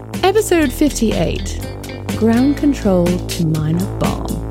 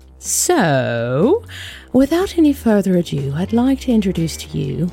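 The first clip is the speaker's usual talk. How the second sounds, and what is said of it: Bad put-on accent. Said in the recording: “I don't know what that accent was. It was bad.”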